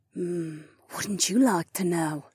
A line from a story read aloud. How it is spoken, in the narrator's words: Sienna whispered into my ear